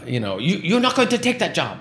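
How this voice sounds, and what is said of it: Put-on Japanese accent. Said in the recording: “That was my best Japanese accent.”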